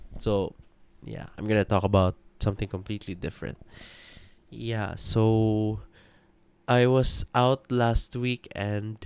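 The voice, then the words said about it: Sleepy, deep voice. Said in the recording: “Sorry if I'm like deep voice, like, yeah, I'm really sleepy... I feel really, really, really sleepy”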